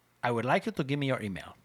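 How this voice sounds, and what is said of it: Put-on Spanish accent. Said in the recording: “that's my best Spanish accent”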